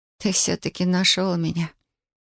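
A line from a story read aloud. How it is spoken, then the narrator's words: Barely audible whisper. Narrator (Russian): Прошептала чуть слышно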